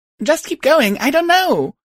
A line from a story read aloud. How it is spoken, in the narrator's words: I shouted back